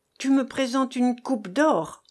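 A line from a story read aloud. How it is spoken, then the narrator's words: Exclaiming. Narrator (French): s'écria-t-il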